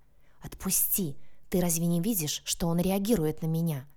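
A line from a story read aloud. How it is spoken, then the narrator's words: Hissed. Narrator (Russian): зашипела она в ответ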